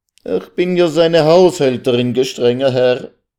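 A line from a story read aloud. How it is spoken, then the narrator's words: Sobbing, tearful cry. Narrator (German): Unter Tränen und Schluchzen rief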